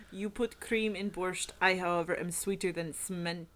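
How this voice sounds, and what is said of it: Put-on Russian accent. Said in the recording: “we're starting to be able to do a decent Russian shitty accent”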